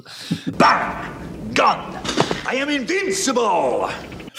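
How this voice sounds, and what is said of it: Stereotypical put-on Russian accent. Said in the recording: “we are going to speak in a, how do you say, stereotypical Russian accents.”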